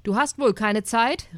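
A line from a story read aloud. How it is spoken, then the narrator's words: Called out by neighbor. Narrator (German): rief der Nachbar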